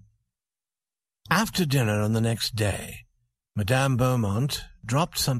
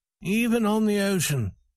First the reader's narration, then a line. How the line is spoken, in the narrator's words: said Farrington sadly